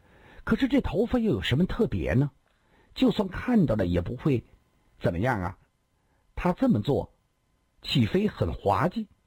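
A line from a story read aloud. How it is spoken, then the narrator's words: Plain. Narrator (Chinese): 他嘴里这么说，心里也突然感觉到有些不对了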